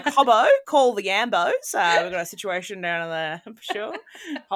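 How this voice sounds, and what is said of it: Exaggerated put-on Australian accent. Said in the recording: “why is everyone so painfully Australian?”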